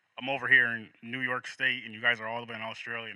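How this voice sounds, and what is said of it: American accent. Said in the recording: “you're obviously American with your accent”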